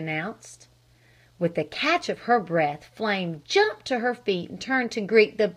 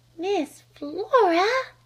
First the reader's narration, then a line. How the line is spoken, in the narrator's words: gasped Flame